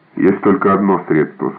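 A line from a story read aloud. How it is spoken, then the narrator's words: Plain. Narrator (Russian): сказал он наконец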